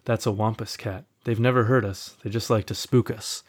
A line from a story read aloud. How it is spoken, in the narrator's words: she calmly says